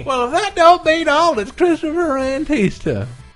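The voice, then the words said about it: Fake Southern US accent. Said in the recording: “the fake accent ... fun at the expense of the southern states”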